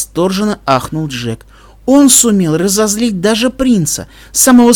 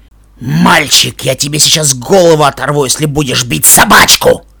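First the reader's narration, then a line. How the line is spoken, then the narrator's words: Barking shout. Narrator (Russian): рявкнул Бурдюк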